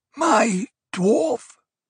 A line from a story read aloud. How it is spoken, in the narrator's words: Othheim wheezed